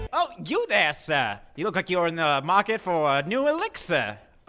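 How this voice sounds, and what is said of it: Character voice with an accent. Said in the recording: “With your accent, it still sounds like you're saying, I'm Penis P.”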